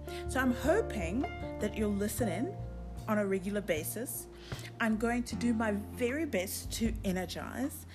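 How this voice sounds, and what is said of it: South African accent. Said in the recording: “nice fancy accent, South African accent”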